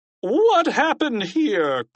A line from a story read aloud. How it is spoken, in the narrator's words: cried Mr